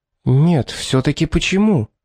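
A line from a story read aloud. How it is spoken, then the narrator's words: Quiet, growing fear. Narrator (Russian): спросила тихо Зенобия, испытывая нарастающий страх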